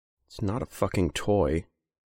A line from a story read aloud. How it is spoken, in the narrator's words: he said quietly